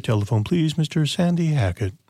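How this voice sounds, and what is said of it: Hotel paging operator impression. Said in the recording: “Isn't that a good operator impression?”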